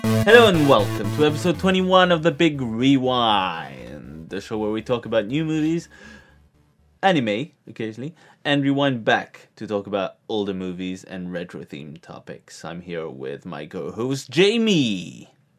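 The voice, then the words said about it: Put-on radio announcer voice. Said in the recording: “trying to do a radio voice”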